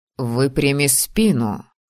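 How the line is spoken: Stern. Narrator (Russian): строго сказал он

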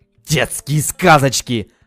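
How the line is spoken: Barking. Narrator (Russian): рявкнул Херсон

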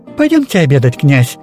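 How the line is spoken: Cheerful laughing. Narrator (Russian): весело засмеялась

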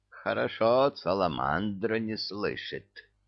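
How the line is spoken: Sighing. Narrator (Russian): вздохнула правая

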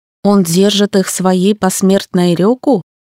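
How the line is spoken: Quick question. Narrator (Russian): быстро спросила

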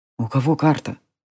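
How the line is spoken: Whisper. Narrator (Russian): прошептал Джари

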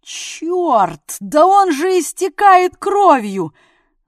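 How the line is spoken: Alarmed howl. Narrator (Russian): взвыл Дятлов, заметив на салатовой спинке темный и влажный отпечаток

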